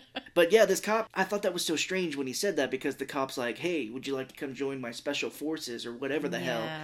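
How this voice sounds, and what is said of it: Usual voice. Nothing is said of it.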